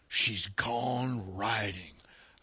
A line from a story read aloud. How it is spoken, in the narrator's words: I whispered in my Bronx ear